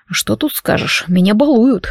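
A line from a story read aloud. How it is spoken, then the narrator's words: Amused snort. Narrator (Russian): хмыкнул Дарк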